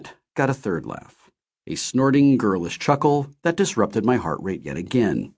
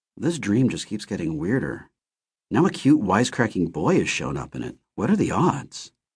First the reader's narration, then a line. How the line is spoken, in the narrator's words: she muttered